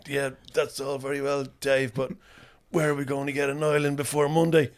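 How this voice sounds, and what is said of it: Impression of a colleague's voice. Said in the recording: “a good impression of you? It's horrible to hear yourself being impersonated.”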